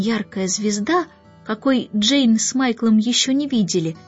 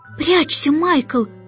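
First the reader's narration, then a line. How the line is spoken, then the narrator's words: Sudden scream. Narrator (Russian): закричала вдруг Джейн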